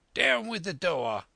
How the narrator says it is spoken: he cried

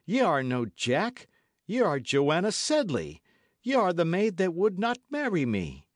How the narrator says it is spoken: he cried

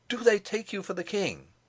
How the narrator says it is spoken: cried to him

